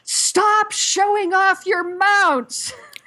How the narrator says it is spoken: all of a sudden yelled

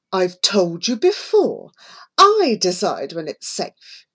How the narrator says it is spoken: he snapped

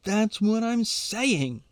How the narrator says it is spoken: shouts

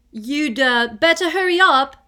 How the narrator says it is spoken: Ron called loudly after her

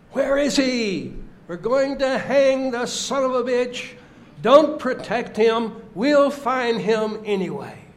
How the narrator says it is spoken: yelled

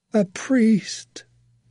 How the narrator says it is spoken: the man gasped

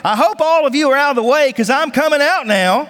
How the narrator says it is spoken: a voice heard underneath the church shouting

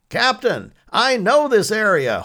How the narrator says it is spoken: Holt shouted above the sound of their motor in the windy rain driving into them

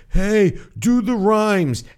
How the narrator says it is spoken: yell out

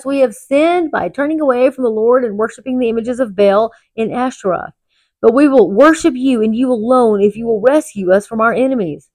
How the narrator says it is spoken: they cried to the Lord again and confessed

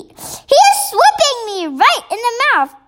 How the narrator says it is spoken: yelled the meat dripper

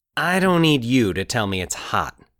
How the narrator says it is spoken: he said irritably

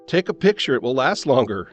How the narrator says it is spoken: he laughed

